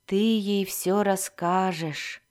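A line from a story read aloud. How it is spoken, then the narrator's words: Dull flat voice. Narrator (Russian): тусклым голосом сказал Альтон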